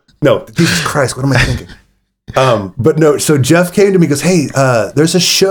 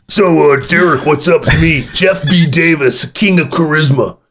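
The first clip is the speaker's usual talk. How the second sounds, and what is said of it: Tough guy voice. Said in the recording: “I don't know why I'm doing that voice. I gave Jeff charismatic Jeff Davis a tough guy voice.”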